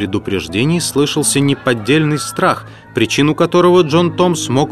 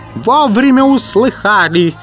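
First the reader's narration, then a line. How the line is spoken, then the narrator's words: Yelling over noise. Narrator (Russian): завопил он, перекрывая шум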